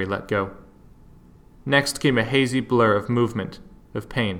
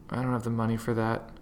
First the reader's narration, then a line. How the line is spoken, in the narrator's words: Harry murmured